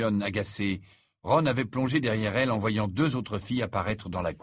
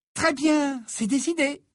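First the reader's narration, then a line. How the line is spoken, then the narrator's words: Energetic tone. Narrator (French): conclut Hermione d'un ton énergique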